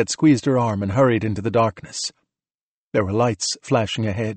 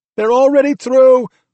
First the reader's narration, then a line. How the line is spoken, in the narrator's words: Courtney yelled back